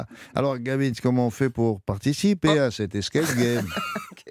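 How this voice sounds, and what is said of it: Slightly Swiss-sounding accent. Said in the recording (French): “c'est quoi cet accent ... C'est un peu, un peu suisse.”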